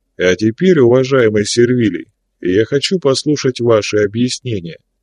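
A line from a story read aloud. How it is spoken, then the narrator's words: Completely calm voice. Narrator (Russian): уже совершенно спокойным голосом сказал Плавти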